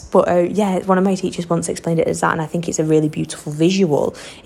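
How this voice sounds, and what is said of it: Thick wazza accent. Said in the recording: “I'm still definitely a wazza girl through and through. Can you not even tell by like the thick accent”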